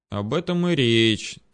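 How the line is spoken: Heavy sigh. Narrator (Russian): тяжело вздохнул я

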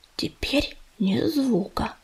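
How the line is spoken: Whispered. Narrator (Russian): прошептал Ежевика

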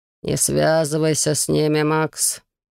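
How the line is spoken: Warning growl. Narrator (Russian): предостерегающе прорычал Элиас

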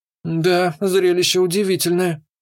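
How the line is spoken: Somewhat dazed tone. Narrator (Russian): несколько пришибленным тоном произнесла Лори

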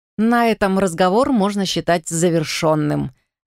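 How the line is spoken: Mocking remark. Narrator (Russian): насмешливо заметила Туниса

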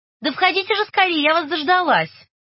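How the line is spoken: Call out. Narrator (Russian): крикнула

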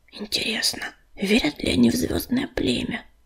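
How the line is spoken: Squirrel whispering. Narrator (Russian): шепнула белочка

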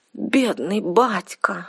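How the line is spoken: Sobbing. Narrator (Russian): всхлипнула Арсана

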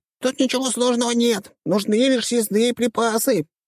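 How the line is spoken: Squeaky tiny voice. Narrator (Russian): пропищал лилипут

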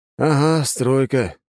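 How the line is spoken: Heavy sigh. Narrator (Russian): тяжело вздохнул

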